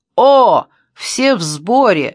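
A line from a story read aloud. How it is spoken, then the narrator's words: Shouting. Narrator (Russian): закричал он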